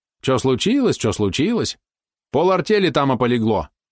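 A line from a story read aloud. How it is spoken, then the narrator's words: Displeased grumble. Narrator (Russian): недовольно пробурчал мужичок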